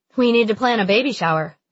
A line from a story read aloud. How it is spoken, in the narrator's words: she says